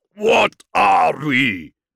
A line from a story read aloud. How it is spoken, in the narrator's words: Warfist roared